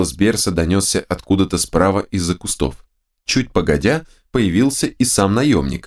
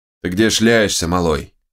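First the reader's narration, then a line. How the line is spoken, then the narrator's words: Grumbled. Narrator (Russian): проворчал он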